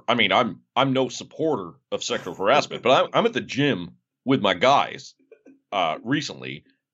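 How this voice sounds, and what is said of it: Imitates another person's voice. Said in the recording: “my Ryan Russillo impression ... you fell into Nate Duncan ... There's something about that alpha energy.”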